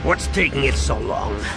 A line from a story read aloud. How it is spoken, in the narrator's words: Han growled